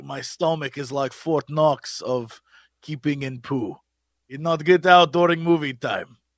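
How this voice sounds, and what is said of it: Put-on Russian accent. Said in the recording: “Russian accents, everyone. Russian accents.”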